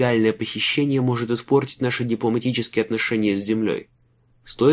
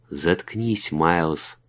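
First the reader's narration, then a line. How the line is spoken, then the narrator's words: Mouthed whisper. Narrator (Russian): прошептал одними губами Айвин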